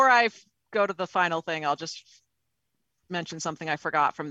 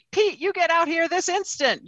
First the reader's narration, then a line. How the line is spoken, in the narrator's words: yells a man